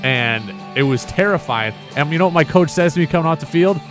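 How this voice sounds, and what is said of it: Usual voice. Nothing is said of it.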